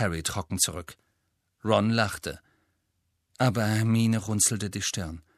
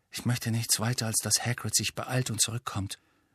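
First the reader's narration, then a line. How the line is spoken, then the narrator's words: Quiet. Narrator (German): sagte Harry leise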